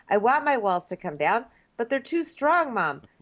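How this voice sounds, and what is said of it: Unplaceable put-on accent. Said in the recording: “I don't know what accent I'm doing now”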